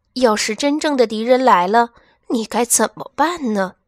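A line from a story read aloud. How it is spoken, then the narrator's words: Mother sighing. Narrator (Chinese): 负鼠妈妈叹了口气说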